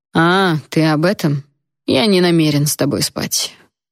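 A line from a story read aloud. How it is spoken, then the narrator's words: Lazy reply. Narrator (Russian): лениво ответил он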